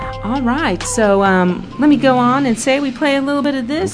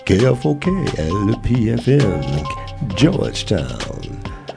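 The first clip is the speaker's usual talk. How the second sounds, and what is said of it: Dracula-style vampire voice. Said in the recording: “my Dracula impersonation. ... Count Chocula.”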